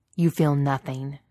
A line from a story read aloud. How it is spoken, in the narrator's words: Vader snaps